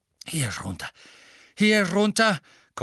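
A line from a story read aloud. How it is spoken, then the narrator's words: Panting. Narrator (German): keuchte Mr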